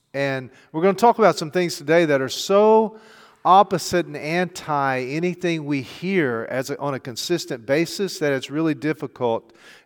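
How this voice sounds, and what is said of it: Southern American English accent. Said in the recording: “I speak English with a southern accent because that's all I've ever heard.”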